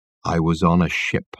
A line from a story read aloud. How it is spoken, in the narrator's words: said in a low voice